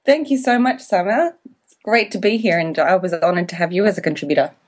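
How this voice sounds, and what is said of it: Australian accent. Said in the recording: “your beautiful accent ... I am an Australian, but I'm living in Wanaka, New Zealand”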